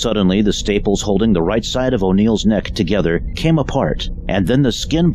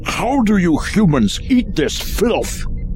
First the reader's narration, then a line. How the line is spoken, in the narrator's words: Clarf grimaced and bellowed